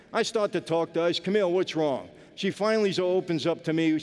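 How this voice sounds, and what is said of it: Brooklyn accent. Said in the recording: “I'm not from L.A., I'm from Brooklyn ... You speak with a Brooklyn accent”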